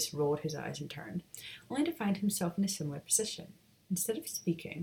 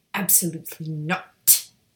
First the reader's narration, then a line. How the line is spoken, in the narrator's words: Lucius snapped